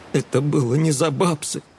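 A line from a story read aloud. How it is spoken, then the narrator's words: Sobbing. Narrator (Russian): всхлипнул Эдик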